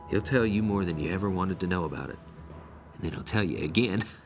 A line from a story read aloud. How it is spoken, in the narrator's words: lowering his voice, he added